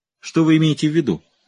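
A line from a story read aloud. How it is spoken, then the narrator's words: Sharp question. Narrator (Russian): резко спросил Райджер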